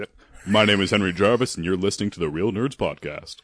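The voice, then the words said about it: Polished radio announcer voice. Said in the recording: “you have a great radio voice, and it's your natural voice”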